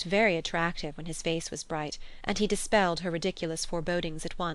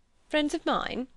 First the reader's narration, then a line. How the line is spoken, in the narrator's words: he laughed